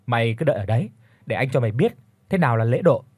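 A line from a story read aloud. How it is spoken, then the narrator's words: Laughing loudly. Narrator (Vietnamese): Tôi cũng nhanh chóng cười lớn rồi đáp lại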